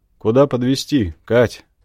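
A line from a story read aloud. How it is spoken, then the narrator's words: Incredulous snort. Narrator (Russian): хмыкнул мужчина, не веря мне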